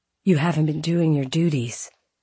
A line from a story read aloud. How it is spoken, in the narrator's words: she said